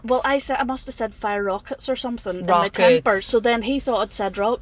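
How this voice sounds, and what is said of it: Broad regional accent. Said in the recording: “My accent might have got broader. It's actually got broader now that I'm talking about it”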